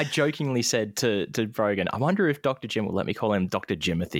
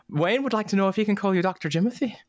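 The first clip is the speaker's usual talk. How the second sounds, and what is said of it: Put-on Irish accent. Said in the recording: “do you like my Irish accent there?”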